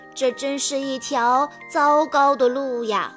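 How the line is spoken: Sighing. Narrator (Chinese): 马蒂娜叹息道

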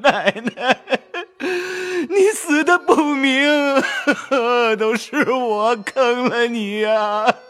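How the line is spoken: Wailing, crying out. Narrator (Chinese): 贾琏 大哭，直叫

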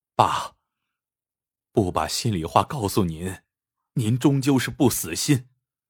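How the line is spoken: Trembling voice. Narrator (Chinese): 关山颤声说道

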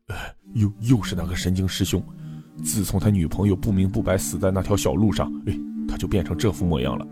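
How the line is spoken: Whispering. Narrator (Chinese): 黄大开悄声说道

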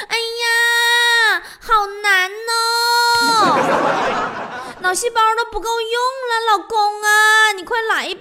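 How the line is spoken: Exasperated calling out. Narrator (Chinese): 王嫂一脸黑线呐，就喊老王

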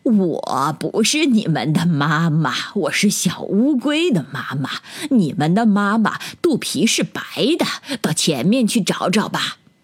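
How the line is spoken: Laughing. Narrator (Chinese): 大乌龟笑着说

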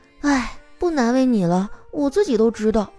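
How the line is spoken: Sighing, resigned. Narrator (Chinese): 丸子突然叹了口气

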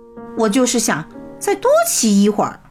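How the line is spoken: Cold. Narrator (Chinese): 比利冷冷地说

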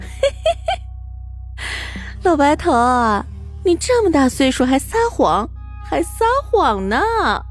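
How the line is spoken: Laughing while speaking. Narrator (Chinese): 陈寡妇仍旧捂着嘴巴笑，边笑边说道

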